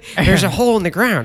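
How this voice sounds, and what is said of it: Jay Baruchel impression. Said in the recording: “good impression of me ... Jay Baruchel impressions”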